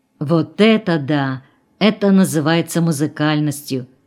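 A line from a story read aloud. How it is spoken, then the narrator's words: Whisper. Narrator (Russian): сказал кто-то шепотом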